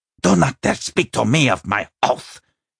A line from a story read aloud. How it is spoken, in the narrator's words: he hissed